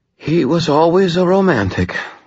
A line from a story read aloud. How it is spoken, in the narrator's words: Lara sighed